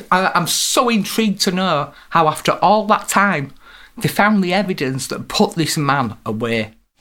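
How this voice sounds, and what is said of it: Yorkshire accent. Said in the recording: “as you can probably tell from her accent, we're in Yorkshire now”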